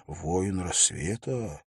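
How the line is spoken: Quiet repeated whispering. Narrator (Russian): Некоторые несколько раз тихо прошептали про себя

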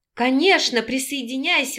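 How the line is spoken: Hostess exclaiming. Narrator (Russian): воскликнула хозяйка

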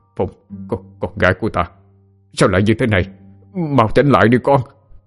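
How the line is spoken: Grief-stricken old man muttering. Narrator (Vietnamese): Ông vẫn không tin là con gái mình chết trẻ như thế, cứ lẩm bẩm

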